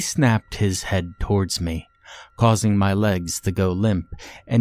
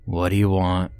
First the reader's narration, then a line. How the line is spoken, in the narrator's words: grumbled